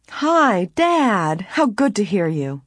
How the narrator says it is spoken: Nancy said happily

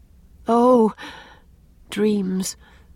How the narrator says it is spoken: sighed Anne

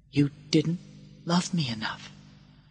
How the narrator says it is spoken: he said softly

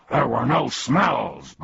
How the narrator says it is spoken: barked Tuck, his alarm now ringing furiously

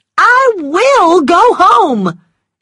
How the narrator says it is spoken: cried, tears running down her cheeks

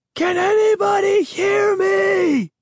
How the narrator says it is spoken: I screamed

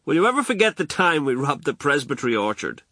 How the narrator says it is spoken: laughed

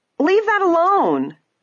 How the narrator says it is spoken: Ada cried out, her eyes blazing

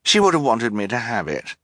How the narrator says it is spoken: Esme said quickly

